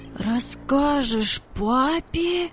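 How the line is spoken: Incredulous exclamation. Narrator (Russian): воскликнул Владик, не поверив своим ушам

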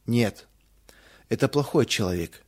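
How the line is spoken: Sad conclusion. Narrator (Russian): печально заключил Рудик

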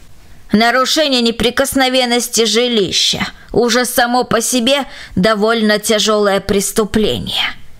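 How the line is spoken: Rude interruption. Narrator (Russian): грубо оборвала она его

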